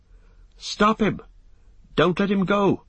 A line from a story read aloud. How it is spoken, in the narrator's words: cried Pippin